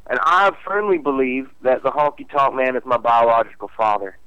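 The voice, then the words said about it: Southern American accent. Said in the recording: “my mysterious southern accent”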